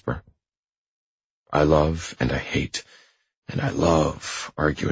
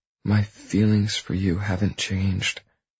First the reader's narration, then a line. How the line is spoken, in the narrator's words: she says, her voice low and reassuring